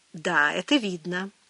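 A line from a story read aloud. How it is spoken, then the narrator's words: Dry. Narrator (Russian): сухо сказал Хартгейм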